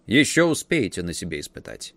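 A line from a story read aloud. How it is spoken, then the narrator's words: Curt dry retort. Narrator (Russian): стражник только сухо отрезал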